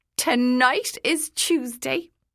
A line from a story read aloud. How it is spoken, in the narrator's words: the woman cried triumphantly